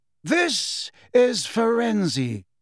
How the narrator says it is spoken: said Dumbledore happily to a thunderstruck Umbridge

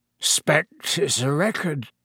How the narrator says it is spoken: said thickly

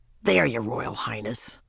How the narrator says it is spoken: Ramona spoke crossly

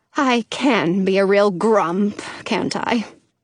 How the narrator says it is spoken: She sighs

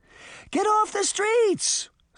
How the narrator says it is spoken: Sabrina shouted to the crowd

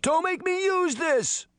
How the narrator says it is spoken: he shouted

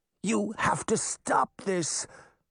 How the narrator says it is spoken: the Wicked Queen choked

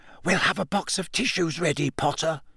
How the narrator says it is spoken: wishing him good luck or hissing

